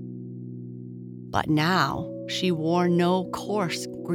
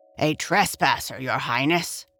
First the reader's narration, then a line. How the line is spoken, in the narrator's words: answered the gardener in his gruff voice